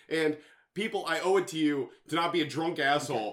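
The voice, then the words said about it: Loud, yelling voice. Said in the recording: “you're yelling... Why are you yelling?”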